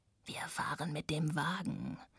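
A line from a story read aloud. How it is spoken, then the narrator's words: Low murmur. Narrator (German): raunte Radek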